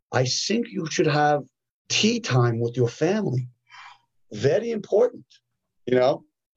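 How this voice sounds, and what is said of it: Imitated Korean accent. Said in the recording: “with his Korean accent”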